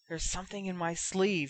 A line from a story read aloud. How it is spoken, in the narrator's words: he whispered